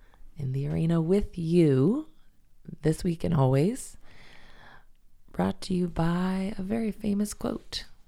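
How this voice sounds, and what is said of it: Impaired, not-quite-normal voice. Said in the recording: “apologize for my voice. It's better than it was ... this is still not the highest quality radio voice”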